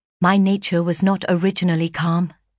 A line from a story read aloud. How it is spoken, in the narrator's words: said I